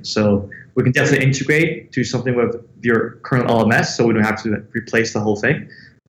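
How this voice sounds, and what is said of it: Somewhat American accent. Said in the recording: “you've got a somewhat American accent”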